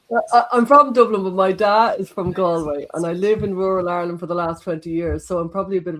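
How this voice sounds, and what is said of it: Slight Irish Galway accent. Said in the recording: “she's Irish... So it's a slight Galway accent”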